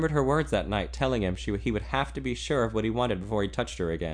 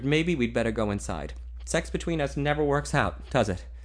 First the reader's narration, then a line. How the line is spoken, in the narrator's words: he finished bitterly